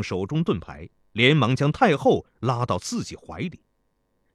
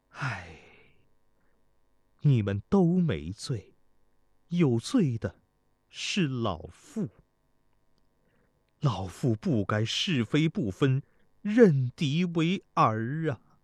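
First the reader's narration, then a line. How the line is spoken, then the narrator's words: Sighing. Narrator (Chinese): 太后吃力地叹道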